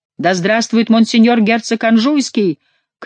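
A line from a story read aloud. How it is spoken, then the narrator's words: Shouted with great effort. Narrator (Russian): крикнул Монсоро, с огромным усилием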